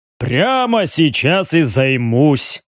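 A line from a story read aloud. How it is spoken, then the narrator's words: Big man's deep bass. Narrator (Russian): пробасил здоровяк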